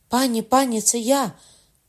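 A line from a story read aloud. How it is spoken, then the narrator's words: Woman shouting. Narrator (Ukrainian): крикнув жіночий голос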